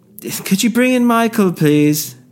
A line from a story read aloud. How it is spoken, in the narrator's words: He shouted